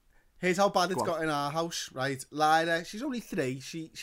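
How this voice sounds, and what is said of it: Usual voice. Nothing is said of it.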